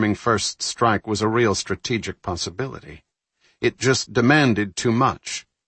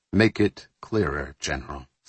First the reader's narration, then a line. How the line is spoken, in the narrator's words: Fowler said so quietly that Sinksack barely heard him